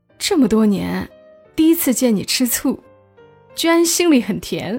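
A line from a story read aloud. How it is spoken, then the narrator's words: Amused, holding back laughter. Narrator (Chinese): 小周一直偷笑，最后说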